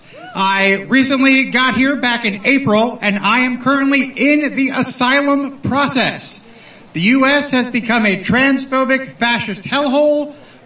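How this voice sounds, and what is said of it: American accent. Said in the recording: “You may be able to tell from my accent, I am from the United States.”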